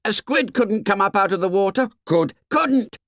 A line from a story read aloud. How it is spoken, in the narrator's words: Someone shouted